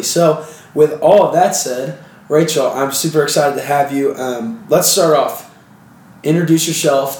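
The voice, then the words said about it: Slightly rough, sniffly congested voice. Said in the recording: “my voice is a little bit gross and I'm still a little sniffly”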